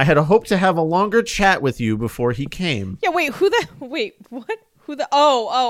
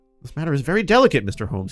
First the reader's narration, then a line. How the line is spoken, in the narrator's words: he said